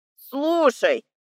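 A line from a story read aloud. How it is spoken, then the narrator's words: Angry owl. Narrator (Russian): Сердито сказала сова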